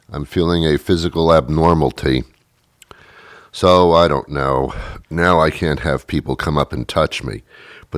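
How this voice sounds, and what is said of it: Sick, sore-throated voice. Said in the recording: “I believe I'm coming down with something. You can probably hear it in my voice. I started yesterday with a sore throat”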